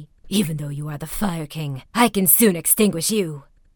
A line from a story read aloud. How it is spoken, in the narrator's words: Kokai, in his own conceit, he murmured angrily